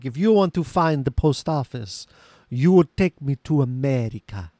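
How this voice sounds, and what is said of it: Unidentified put-on foreign accent. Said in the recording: “I don't know what that accent is. It is probably offensive, and I apologize.”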